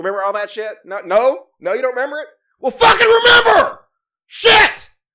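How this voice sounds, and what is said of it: Screaming into the microphone. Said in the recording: “I'm sorry I'm screaming in the microphone”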